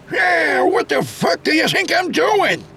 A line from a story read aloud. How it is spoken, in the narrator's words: Ellis yelled back